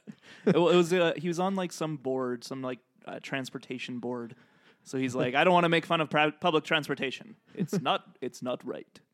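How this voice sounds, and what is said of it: Imitates another person's voice. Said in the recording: “my George Takei impression... That's a good one... It's very good”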